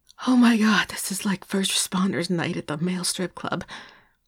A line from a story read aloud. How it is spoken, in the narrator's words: Paige breathed out